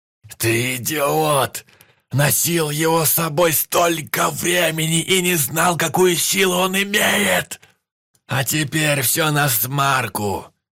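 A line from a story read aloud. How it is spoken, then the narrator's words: Shouting in strange voice. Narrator (Russian): Вальга кричал не своим голосом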